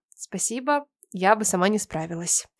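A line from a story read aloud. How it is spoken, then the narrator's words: Quiet. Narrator (Russian): я тихо сказала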